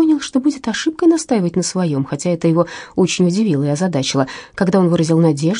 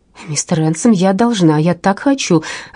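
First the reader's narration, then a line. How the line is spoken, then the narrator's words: Exclamation in unfamiliar tone. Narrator (Russian): воскликнула с интонацией, которой он прежде у нее не замечал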